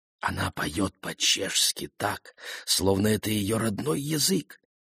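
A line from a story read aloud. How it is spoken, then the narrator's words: Whisper. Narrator (Russian): прошептал он Гену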